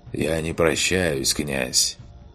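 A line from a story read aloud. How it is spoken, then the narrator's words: Quiet. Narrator (Russian): негромко произнес отец Себастьян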